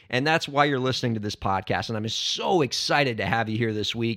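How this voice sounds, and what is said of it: Hoarse, strained voice. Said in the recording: “thank you so much again for bearing through my laryngitis ... I just screamed the whole game ... now my throat is shot”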